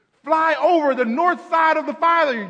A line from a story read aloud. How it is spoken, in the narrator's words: yelled the photographer